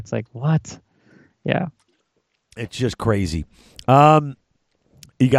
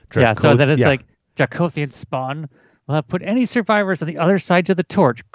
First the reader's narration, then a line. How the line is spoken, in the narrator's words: Kragnos growled